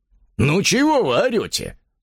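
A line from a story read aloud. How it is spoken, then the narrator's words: Rude. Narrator (Russian): спросил он грубо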